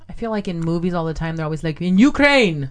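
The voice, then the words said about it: Put-on Russian accent. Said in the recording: “my Russian accent? ... your Russian accent is very good.”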